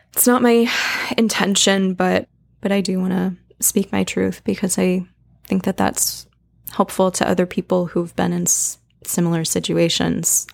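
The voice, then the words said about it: Emotional, shaky voice. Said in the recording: “the emotion in my voice is a little triggering”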